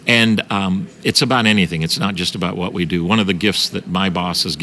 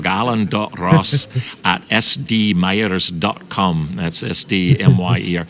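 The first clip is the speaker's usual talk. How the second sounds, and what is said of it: Scottish brogue. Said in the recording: “I'll give you this in my Scottish brogue.”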